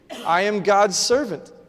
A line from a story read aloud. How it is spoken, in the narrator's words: she said